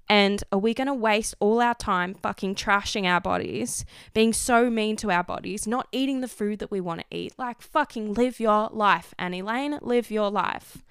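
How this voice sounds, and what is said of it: Loud, passionate yelling. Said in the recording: “can you stop yelling at me? Can you please calm down? You've probably had to turn the volume down.”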